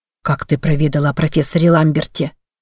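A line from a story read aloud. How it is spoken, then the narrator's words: Mutter. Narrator (Russian): забормотал Бахи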